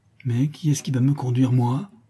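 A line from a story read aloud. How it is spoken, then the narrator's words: Muffled, hollow voice. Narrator (French): demanda le maître d'école d'une voix sourde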